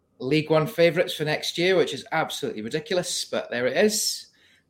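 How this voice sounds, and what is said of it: Put-on Scottish accent, drifting in and out. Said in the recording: “Excuse the Scottish accent, it'll drift in and out. ... that isn't his normal accent”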